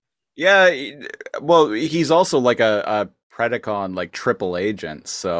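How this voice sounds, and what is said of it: Usual voice. Nothing is said of it.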